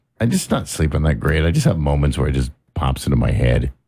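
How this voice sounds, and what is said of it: Tired-sounding voice. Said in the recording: “I sound a little tired”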